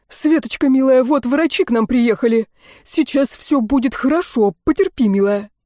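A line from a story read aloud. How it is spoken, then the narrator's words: Exaggeratedly cheerful voice. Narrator (Russian): Сергей преувеличенно бодрым голосом произнес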